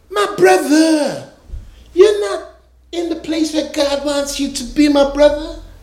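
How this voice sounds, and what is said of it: Put-on accent, preacher voice. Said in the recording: “you're going to have to forgive the accent.”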